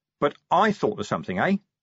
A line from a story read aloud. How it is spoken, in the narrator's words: said Vimes, swaying cheerfully